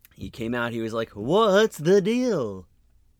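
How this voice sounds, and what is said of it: Imitates another person's voice. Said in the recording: “was that a good impression? ... No, it was awful.”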